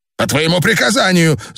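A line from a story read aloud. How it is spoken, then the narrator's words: Shouting. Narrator (Russian): закричал Дрок-У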